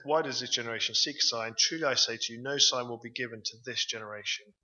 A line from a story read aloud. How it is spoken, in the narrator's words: sighed deeply in his spirit and said